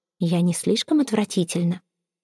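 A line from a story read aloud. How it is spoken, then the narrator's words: Whispered. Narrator (Russian): Эвейн шепнула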